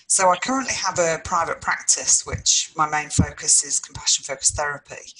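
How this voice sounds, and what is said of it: English (UK) accent. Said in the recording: “people can tell from my English accent that I'm originally from the UK”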